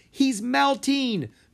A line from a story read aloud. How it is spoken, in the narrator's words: Mina cried